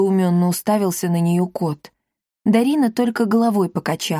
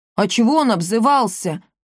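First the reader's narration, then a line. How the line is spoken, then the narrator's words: Hurt, low droning. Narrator (Russian): обиженно прогудел Акаций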